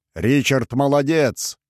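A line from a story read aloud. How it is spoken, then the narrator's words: Shouted reply. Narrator (Russian): крикнул в ответ Роллинг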